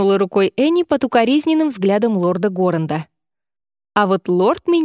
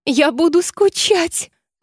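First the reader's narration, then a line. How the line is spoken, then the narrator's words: Sobbing. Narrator (Russian): разрыдалась Энни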